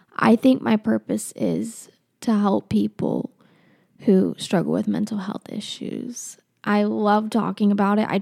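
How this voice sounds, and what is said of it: Shaky, emotional voice. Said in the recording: “as you can hear in my shaky voice,”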